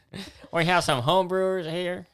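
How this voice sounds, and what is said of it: Imitates another person's voice. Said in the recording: “I'm doing like a John F. Kennedy here.”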